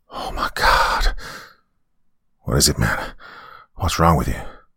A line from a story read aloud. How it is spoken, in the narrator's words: Kenny make a gasping noise and whisper